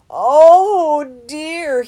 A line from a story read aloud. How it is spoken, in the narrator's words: he moaned